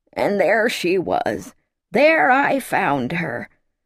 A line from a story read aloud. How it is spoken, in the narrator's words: he would tell them in a cracked, quavering voice